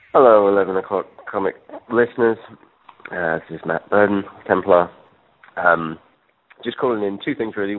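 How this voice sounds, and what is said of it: Hungover-sounding voice. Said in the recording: “As you can tell by my voice, I'm a tad hungover”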